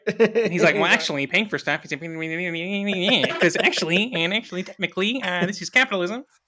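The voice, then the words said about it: High-pitched imitation of another person's voice. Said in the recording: “You do a pretty decent Ben Shapiro impersonation... My voice is already pretty high-pitched.”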